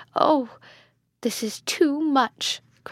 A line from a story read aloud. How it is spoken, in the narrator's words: cried Hippolyta